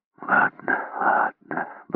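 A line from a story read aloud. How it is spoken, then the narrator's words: Mumbled. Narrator (Russian): бормотал он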